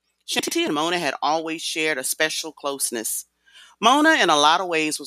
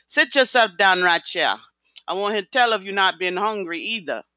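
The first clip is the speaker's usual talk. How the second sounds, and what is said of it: Thick Jamaican accent. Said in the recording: “spoke with a thick Jamaican accent”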